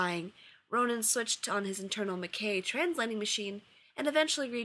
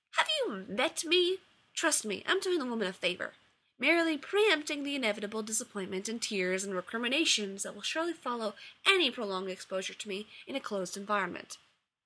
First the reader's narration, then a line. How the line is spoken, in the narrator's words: snapped